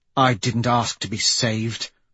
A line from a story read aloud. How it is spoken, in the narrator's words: she says bitterly